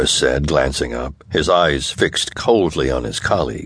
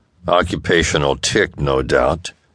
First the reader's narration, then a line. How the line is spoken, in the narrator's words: Briggs said dryly